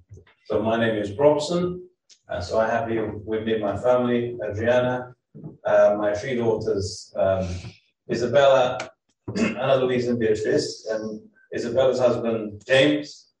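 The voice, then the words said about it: Brazilian accent in English. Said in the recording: “I'm originally from Brazil. You may wonder what accent that I have. ... you may hear some funny words, funny accent, maybe wrongly said”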